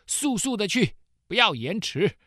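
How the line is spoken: Calling out. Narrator (Chinese): 约拿单又呼叫童子说

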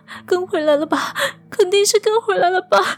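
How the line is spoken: Terrified crying. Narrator (Chinese): 大家的恐惧感顿时到达了临界点，已经饱受惊吓的 A 学姐当场哭了出来

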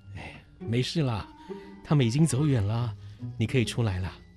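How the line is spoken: Gentle. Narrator (Chinese): 他温柔地对那位年轻人说

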